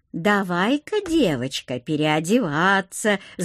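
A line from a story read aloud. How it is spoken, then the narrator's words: Cooing women. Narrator (Russian): заворковали лысые тетки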